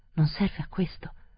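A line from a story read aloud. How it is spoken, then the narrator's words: Resigned, surprised mumble. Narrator (Italian): farfugliò rassegnato ma sorpreso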